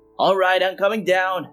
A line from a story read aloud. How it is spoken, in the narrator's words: called out